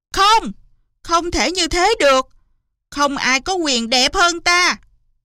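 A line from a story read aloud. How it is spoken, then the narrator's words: Furious screaming. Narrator (Vietnamese): Hoàng hậu liền đùng đùng nổi giận thét lớn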